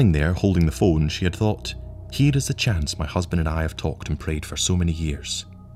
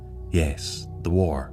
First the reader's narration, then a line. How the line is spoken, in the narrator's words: murmured Anne